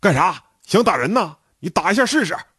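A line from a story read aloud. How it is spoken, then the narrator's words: Loud aggressive roar. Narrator (Chinese): 他是队里有名的愣头青，大声吼道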